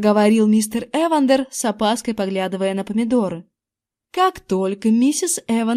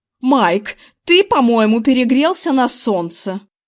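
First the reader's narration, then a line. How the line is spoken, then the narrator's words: Grumbling. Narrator (Russian): проворчала его жена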